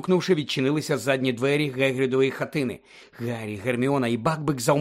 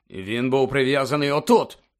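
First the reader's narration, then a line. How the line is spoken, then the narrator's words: Furious bark. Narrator (Ukrainian): розлючено гаркнув Кат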